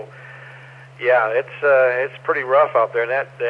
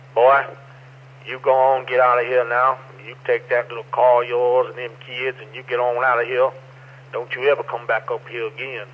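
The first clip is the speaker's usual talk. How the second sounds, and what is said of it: Strong hillbilly accent impression. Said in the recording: “the hillbillies ... the accent's real strong ... That was a good impression.”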